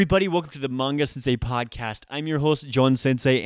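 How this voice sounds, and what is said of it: Usual voice. Nothing is said of it.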